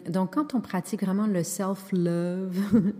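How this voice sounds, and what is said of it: English phrase said with English accent. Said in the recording (French): “je dis toujours avec cet accent-là”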